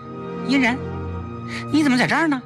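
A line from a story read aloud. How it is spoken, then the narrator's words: Hasty call. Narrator (Chinese): 崔丽忙叫他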